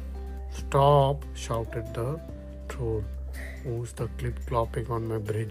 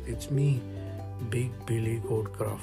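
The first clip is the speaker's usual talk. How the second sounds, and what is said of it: Big, deep character voice. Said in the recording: “in his great big voice”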